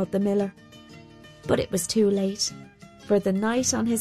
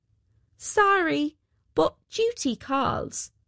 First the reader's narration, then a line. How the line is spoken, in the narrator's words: cried out the weaver